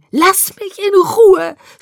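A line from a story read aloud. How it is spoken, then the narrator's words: Tearful scream. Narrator (German): schrie ich ihn mit Tränen überströmtem Gesicht an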